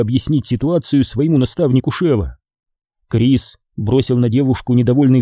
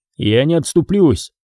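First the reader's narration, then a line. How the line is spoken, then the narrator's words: Rude, curt. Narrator (Russian): грубо отрезал Крис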